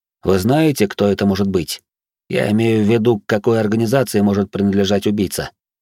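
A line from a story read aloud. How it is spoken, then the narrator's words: Plain. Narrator (Russian): спросил я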